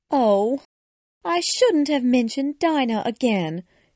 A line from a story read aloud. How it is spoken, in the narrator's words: she said to herself sadly